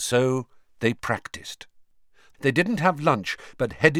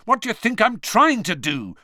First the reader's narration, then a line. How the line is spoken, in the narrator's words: said Harry angrily